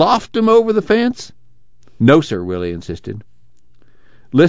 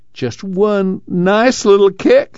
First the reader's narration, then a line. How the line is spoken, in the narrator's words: Jewel pleaded